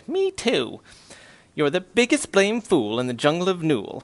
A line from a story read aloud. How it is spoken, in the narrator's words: laughed the sour kangaroo, and the young kangaroo in her pouch said